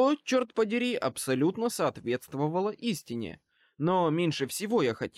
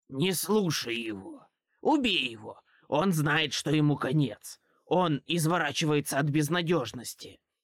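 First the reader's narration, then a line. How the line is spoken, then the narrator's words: Hissed. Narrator (Russian): прошипел трупные пятна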